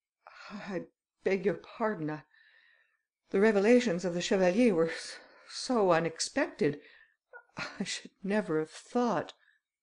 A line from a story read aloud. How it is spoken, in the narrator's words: He said to his friends in a trembling voice